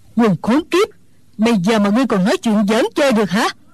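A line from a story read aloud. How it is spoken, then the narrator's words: Angry shout, old woman. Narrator (Vietnamese): Mụ già tức giận quát lên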